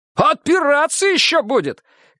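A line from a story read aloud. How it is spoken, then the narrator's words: Shout. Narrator (Russian): крикнул Леха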